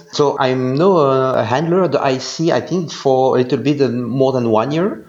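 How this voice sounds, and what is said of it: Belgian-accented English. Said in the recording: “I'm from Belgium, so you can hear this with my very nice English accent.”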